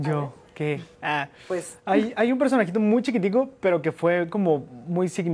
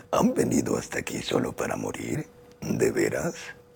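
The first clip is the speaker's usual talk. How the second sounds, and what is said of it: Male character voice. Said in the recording (Spanish): “Gozer de The Ghostbusters ... Yo no tengo voz de hombre, pero caracterizaba ... Esa es voz de hombre.”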